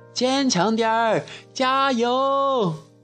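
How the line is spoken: Crowd shouting loudly. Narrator (Chinese): 全场的观众他们大声喊

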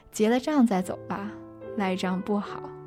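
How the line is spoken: Smiling, cheerful. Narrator (Chinese): 烧烤店小弟，笑眯眯地说

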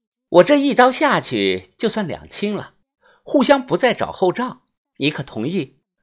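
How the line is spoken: Calm, indifferent. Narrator (Chinese): 柳川宇淡淡的说

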